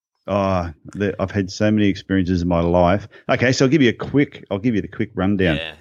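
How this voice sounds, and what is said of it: Accent that is not New Zealand. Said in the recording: “that's not a Kiwi accent. ... Definitely not a Kiwi.”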